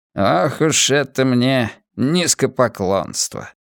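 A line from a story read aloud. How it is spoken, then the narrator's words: Muttered to himself. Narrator (Russian): пробормотал он про себя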